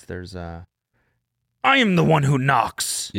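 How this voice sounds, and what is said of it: Imitates a TV character's voice. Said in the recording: “Pretty good impression, right? ... That is from Breaking Bad.”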